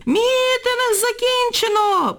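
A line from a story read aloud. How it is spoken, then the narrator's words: Shrill shriek. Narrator (Ukrainian): проверещала ... секретарка сільради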